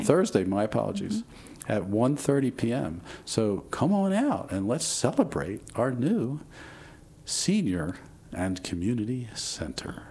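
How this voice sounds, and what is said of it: Announcer-style radio voice. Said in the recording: “I put on my radio voice for that.”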